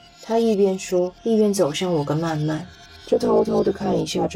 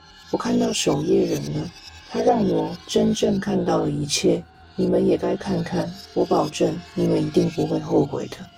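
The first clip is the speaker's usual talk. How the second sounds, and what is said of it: Lifeless, strange flat voice. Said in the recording (Chinese): “小乐的声音变得毫无生气 ... 小乐继续用奇怪的声音说着”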